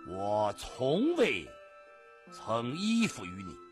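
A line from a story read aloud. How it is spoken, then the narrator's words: Calm, composed reply. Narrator (Chinese): 他从容不迫地这样回答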